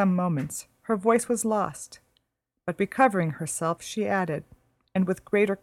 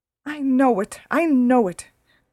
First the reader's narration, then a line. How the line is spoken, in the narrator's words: cried her mother